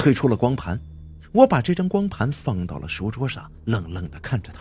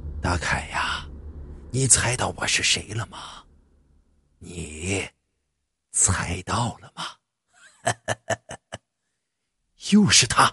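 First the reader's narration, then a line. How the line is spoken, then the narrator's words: Old, hoarse, through computer. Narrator (Chinese): 电脑中再次传出了那个苍老而又沙哑的声音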